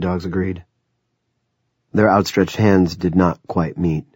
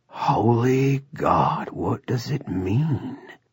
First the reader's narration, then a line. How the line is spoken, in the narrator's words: Sea Dogs whispered